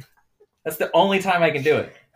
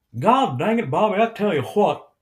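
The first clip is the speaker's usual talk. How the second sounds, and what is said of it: Hank Hill impression. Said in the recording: “Hank Hill, mm-hmm. I can only impersonate if I say one phrase.”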